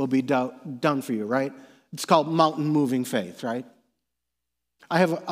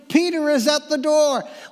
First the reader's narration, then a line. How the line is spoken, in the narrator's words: she was so overjoyed, she exclaimed